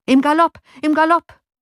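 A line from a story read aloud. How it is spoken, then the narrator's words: Calling out. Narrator (German): rief Johann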